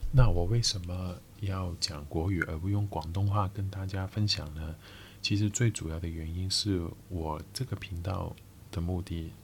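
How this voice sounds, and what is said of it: Cantonese-accented Mandarin. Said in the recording (Chinese): “我是一个澳门人...其实我已经很久没有讲国语了...我的口音啊，或者我的用词有奇怪”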